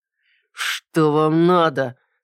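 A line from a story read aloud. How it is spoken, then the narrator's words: Growling through teeth. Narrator (Russian): Сквозь зубы прорычал тот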